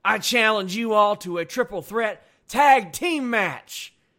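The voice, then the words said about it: Southern-accented Jeff Hardy impression. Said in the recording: “You have a good Jeff Hardy impersonation. ... when I do any of these Southern voices, whether it be Braun or AJ or Jeff Hardy”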